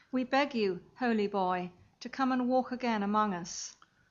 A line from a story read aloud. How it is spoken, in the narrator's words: They called out, as it were, with one voice